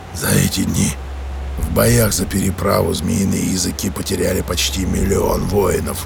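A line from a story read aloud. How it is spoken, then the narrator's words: Hoarse male. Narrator (Russian): хрипло сказал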